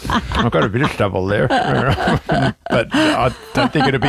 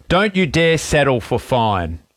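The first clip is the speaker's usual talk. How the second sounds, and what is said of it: Imitates another person's accent. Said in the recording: “Can you say it with his accent? It sounds better. ... do the accent”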